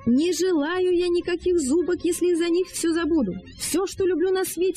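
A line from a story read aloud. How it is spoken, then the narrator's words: Yelling, muffled under blanket. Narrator (Russian): вопил Джон, извиваясь под одеялом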